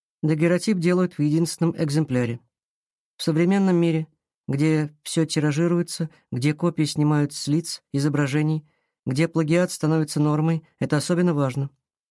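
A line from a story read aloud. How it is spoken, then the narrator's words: Plain. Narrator (Russian): ответил Платон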